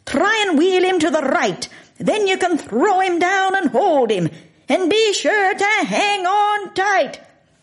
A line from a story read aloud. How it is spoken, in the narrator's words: McLeod was screaming at me